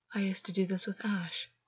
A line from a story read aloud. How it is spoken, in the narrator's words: August said quietly, almost to himself